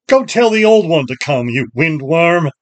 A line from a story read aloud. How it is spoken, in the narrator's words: he laughed and shouted